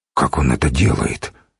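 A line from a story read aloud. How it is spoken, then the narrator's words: Quiet question. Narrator (Russian): негромко спросил он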